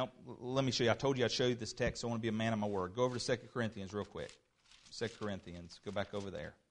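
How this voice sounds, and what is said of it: Usual voice. Nothing is said of it.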